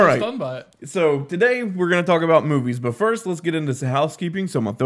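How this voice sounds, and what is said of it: Usual voice. Nothing is said of it.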